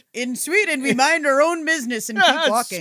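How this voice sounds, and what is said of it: Unidentifiable put-on foreign accent. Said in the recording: “I don't know what accent that was.”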